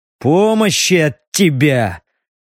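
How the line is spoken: Disappointed growl. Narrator (Russian): разочарованно рыкнул Стриж

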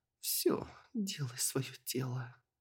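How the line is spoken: Slurred mumbling. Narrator (Russian): заплетающимся языком пробормотала эльфийка

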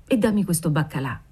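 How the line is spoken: Murmur, suppressed sigh. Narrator (Italian): mormorò ella reprimendo un sospiro

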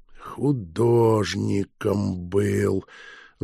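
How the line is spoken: Thoughtful repeating. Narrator (Russian): в задумчивости повторил фон Шпинн

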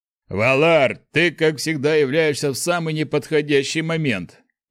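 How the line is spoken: Deep bass voice. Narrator (Russian): пробасил один из них

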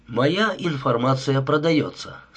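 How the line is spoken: Plain. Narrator (Russian): сказал он

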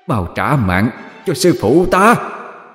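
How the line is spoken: Thunderous shout. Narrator (Vietnamese): Nhện yêu hét lớn, âm vang đất trời

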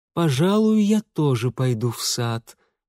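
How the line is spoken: Languid drawl. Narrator (Russian): томно протянула Анна Владимировна

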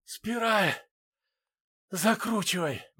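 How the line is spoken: Breathed out. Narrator (Russian): выдохнул Рубин

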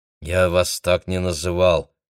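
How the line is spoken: Through gritted teeth. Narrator (Russian): процедил Автандил сквозь зубы

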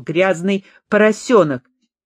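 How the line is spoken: Irritated shout. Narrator (Russian): раздраженно сощурившись, она крикнула брату

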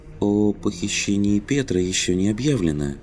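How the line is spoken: Gentle. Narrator (Russian): мягко напомнил Щеглов

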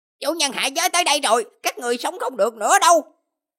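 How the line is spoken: Cold, hateful howl. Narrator (Vietnamese): Thi mãn gào thét, căm tức, âm thanh đầy lạnh lẽo nói

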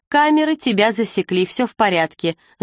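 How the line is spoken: Rapid chatter. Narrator (Russian): затараторила милая

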